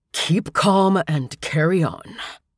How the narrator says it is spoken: he kept murmuring, repeating the phrase

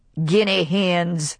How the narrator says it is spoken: said Archie suddenly, and his voice was contemptuous

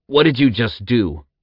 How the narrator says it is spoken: Zack growled

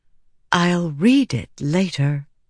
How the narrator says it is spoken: Navani said in a gently chiding voice

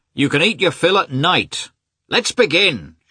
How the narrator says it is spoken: shouted different voices

